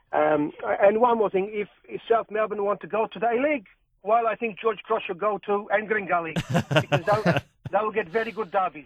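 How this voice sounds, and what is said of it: Put-on Maltese accent, drifting Croatian. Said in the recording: “you need to work on that Maltese accent ... I think it turned Croatian near the end there.”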